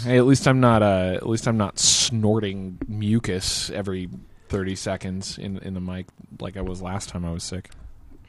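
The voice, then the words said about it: Tired, sick voice, much deeper. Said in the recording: “a fucking cold virus that's kicking my ass ... I sound tired and like shit and my voice is about an octave deeper than normal”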